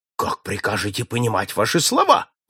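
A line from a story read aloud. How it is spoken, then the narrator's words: Exclaiming. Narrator (Russian): воскликнул Гумфи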